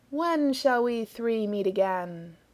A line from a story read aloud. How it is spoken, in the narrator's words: intoned Famine